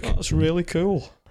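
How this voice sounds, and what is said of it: Sarcastic tone. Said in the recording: “in a sarcastic voice”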